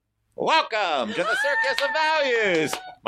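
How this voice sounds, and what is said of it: Circus of Values clown character voice. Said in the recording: “really do the voice of the Circus of Values clown ... that fucking voice ... That's my amazing acting.”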